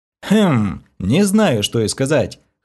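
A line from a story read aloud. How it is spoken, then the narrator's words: Hmphing. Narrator (Russian): хмыкнул я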